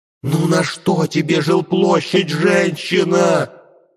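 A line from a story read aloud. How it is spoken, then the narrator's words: Anguished shout. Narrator (Russian): закричала, мучаясь яблоня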